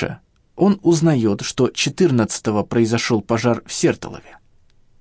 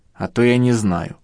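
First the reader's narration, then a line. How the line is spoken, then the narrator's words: Grumbling. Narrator (Russian): проворчал я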